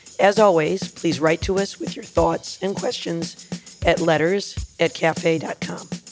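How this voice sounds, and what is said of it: Slightly raspy voice. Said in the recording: “my voice sounds a little raspy ... my apologies for the sound”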